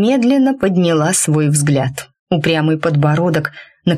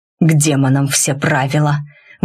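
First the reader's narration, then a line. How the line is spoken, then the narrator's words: Breathed against lips. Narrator (Russian): выдохнул мне в губы Рид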